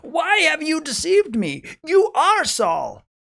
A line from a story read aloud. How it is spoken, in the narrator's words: she cried out with a loud voice, and the woman said to Saul